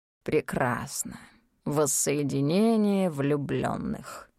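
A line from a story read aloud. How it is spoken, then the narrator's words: Snorting smirk. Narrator (Russian): хмыкнул Дэн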